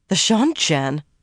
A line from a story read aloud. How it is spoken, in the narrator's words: Aleandra exclaimed